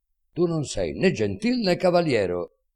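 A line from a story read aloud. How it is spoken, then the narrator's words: Shouting as loud as possible. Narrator (Italian): dice gridando quanto può più forte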